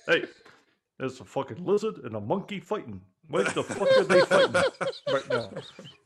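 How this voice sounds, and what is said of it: Impression of Lance Reddick. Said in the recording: “doing the greatest impersonation of Lance Reddick we've ever heard ... black voice”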